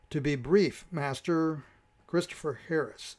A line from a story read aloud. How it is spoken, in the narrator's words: Sylvan answered